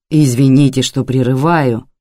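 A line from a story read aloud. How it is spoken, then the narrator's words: Plain. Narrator (Russian): сказал он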